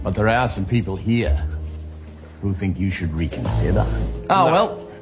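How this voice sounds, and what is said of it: Exaggerated, unconvincing Australian accent. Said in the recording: “the worst Australian accent I've ever heard was John Lithgow in Pitch Perfect 3 ... I want to play a little bit of his Aussie accent”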